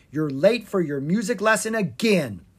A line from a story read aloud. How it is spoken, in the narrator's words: she cried